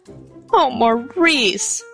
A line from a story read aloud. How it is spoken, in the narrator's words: his mother almost sobbed